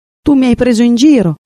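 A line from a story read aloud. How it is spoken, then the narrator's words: Young swallow shouting. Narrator (Italian): gridò il rondinotto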